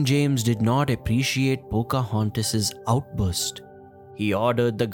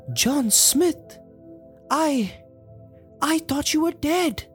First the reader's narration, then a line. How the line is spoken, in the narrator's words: Pocahontas said with a gasp